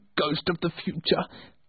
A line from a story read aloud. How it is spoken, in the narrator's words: cried